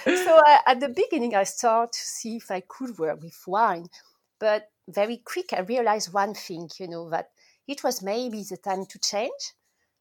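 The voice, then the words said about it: Strong foreign accent. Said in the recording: “my strong accent”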